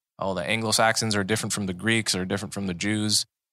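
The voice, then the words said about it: Put-on Southern American accent. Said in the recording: “I don't know why I'm doing a Southern accent.”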